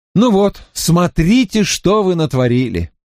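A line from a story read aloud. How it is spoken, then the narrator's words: Exclaimed. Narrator (Russian): сукаризной воскликнул я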